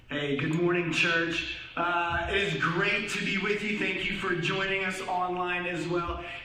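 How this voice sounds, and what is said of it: Slightly hoarse voice. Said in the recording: “my voice is a little bit hoarse ... the amount of wooing that I did yesterday”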